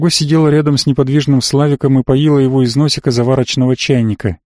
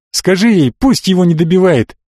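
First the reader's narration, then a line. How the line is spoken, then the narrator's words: Shout after someone. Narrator (Russian): крикнула Элли ему в спину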